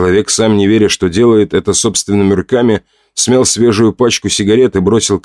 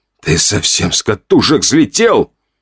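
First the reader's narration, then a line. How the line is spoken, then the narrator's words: Strangled wheeze. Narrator (Russian): Парень сдавленно просипел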